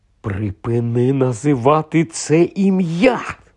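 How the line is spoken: Hiss. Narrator (Ukrainian): зашипів Рон

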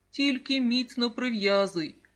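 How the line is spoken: Mother laughing. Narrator (Ukrainian): засміялася мама

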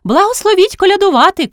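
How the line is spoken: Shout. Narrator (Ukrainian): крикнула Горпина

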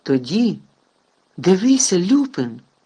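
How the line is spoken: Exclamation. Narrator (Ukrainian): вигукнув Гаррі

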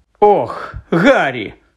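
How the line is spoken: Exclaimed. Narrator (Ukrainian): вигукнула

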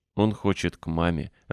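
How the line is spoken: Laughing. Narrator (Russian): рассмеялся Дик

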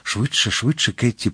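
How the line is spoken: Urgent whisper. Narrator (Ukrainian): прошепотів Д'Артаньян

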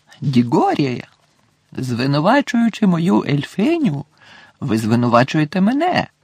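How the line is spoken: Exclaiming. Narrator (Ukrainian): вигукнув містер Кравч

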